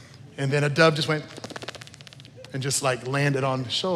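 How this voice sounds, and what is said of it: Usual voice. Nothing is said of it.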